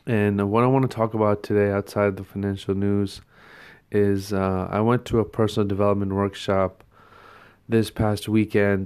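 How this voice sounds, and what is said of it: Hoarse, sore-throated voice. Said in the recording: “as some of you can tell by my voice today, I'm a little bit of a sore throat.”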